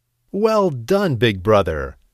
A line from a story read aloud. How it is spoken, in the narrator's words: laughed the little billy goat Gruff and the medium-sized billy goat Gruff